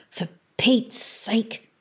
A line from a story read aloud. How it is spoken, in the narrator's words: hissed Mungo